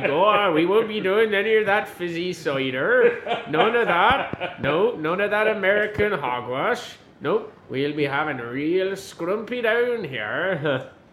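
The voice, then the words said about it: Put-on Cornish accent. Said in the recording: “The Cornish, the Cornish accent, they would sound like that”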